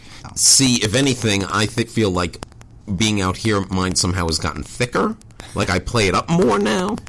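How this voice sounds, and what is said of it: Long Island accent. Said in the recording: “you still have a little bit of your horrible Long Island accent”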